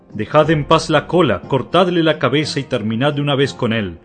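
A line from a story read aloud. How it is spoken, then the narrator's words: Messengers shouting. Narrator (Spanish): gritaban los mensajeros de los pueblos más afectados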